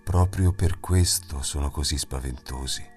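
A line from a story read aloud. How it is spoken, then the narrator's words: Quiet, soft. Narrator (Italian): disse piano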